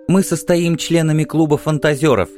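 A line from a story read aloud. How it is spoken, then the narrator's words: Giggling. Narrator (Russian): хихикнув, сказала одна из них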